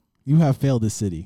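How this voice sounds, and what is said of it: Deep put-on character voice. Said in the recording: “a deep voice.”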